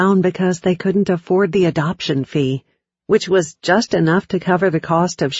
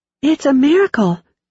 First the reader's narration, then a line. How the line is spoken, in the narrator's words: she exclaimed, barely pausing